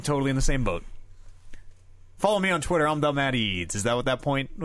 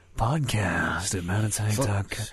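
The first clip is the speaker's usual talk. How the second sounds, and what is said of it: Slow, mock-sexy voice. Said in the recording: “Slower. ... Is that supposed to be a sexy voice?”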